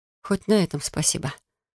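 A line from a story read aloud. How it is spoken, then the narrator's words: Muttering. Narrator (Russian): пробормотала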